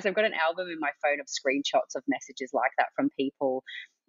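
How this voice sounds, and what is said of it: Choked-up, emotional voice. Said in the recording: “getting a little bit choked up here”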